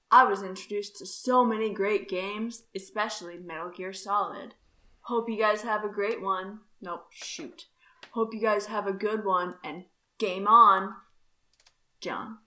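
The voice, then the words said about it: Casual laid-back bro voice. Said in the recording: “talking in your bro voice ... I was talking in my bro voice.”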